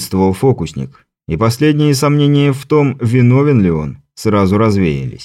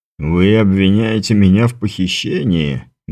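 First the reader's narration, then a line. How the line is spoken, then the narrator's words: Soft laugh. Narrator (Russian): мягко рассмеялся маэстро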